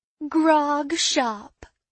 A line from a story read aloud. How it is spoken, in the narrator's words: taunted Janine